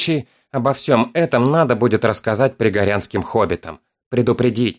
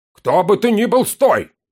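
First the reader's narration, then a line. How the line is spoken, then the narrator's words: Booming command. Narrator (Russian): Прогремел голос всадника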